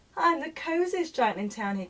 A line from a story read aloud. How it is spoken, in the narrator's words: he cried